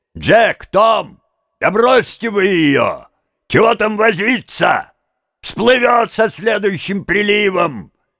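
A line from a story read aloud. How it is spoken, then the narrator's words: Shouted from a distance. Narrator (Russian): один из них, уходя, крикнул двоим оставшимся в лодке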